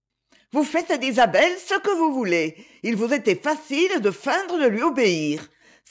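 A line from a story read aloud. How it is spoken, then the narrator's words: Ironic exclamation. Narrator (French): s'écria ironiquement Lady Ophelia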